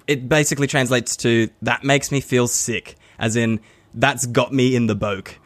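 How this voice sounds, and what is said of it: Half-attempted Scottish accent. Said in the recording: “your half attempted Scottish accent”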